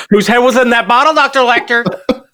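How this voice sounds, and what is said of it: Imitates another person's voice. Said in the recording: “your Jodie Foster impersonation”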